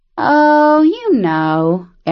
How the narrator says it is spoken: Arion drawled

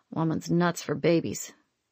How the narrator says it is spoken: he muttered

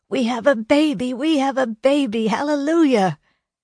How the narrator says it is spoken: shout out the news

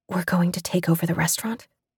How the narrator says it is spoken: She whispered

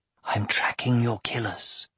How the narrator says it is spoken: he whispered to his uncle

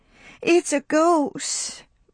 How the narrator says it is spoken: moaned Prissy

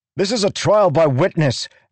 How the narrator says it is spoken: Adolin shouted at Sekir

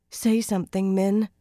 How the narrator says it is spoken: Nynaeve pleaded

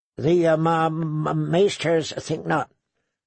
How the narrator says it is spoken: Sam stammered

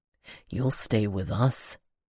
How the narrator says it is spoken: Iden whispered

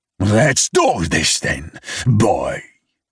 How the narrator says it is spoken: snarls, curling his lips

